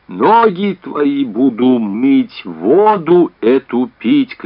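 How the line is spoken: Inhuman scream. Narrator (Russian): кричит Беатриче нечеловеческим голосом

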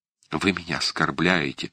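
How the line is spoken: Whisper. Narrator (Russian): шепнула Валентина Михайловна

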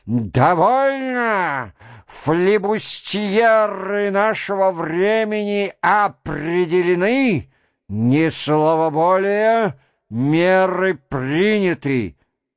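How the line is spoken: Loud, energetic. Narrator (Russian): Он говорил громко, на всю комнату, заключил энергически

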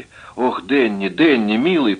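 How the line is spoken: Moaning. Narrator (Russian): простонала она

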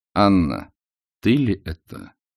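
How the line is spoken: Quiet, restrained. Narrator (Russian): сказал Алексей Александрович тихо, сделав усилие над собою

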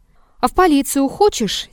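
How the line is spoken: Angry question. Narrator (Russian): сердито спросил из-за среднего стола купец

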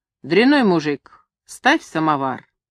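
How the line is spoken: Stern command. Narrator (Russian): Чурка строго приказывал ему

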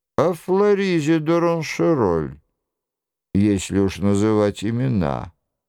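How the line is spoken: Angry grumble. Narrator (Russian): буркнул Нострадамус, и глаза его налились кровью

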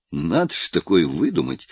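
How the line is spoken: Laughing. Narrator (Russian): рассмеялся Голицын

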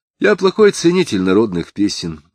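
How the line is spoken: Dry. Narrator (Russian): сухо выговорил Самгин

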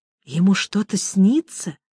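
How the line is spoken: Touched whisper. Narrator (Russian): растроганно прошептала госпожа Перманедер

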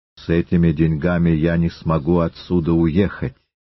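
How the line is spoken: Threatening. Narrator (Russian): Остров сказал угрожающим тоном

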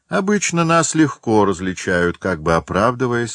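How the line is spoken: Plain. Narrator (Russian): сказал один

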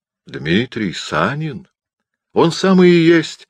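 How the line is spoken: Exclaiming. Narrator (Russian): воскликнул Санин

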